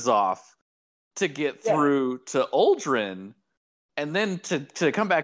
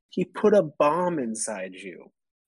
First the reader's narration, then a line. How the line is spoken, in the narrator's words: Crow hissed